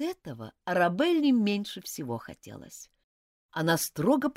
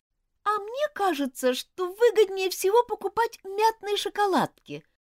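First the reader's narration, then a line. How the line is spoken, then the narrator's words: Sudden thin little voice. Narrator (Russian): вдруг тонким голоском заявила Розмари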